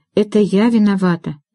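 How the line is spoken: Sighing. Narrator (Russian): вздохнула Эвели

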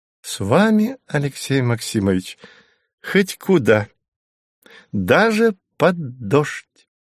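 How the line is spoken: Giddy laughing. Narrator (Russian): рассмеялась она, почувствовав необыкновенную пьянящую легкость

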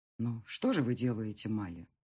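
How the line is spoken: Sighing. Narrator (Russian): вздохнул

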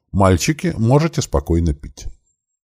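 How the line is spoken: Calm permission. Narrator (Russian): спокойным голосом разрешила

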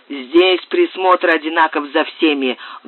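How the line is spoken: Rude curt retort. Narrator (Russian): грубо отрезал хозяин

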